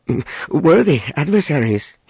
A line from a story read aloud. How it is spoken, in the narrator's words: he stammered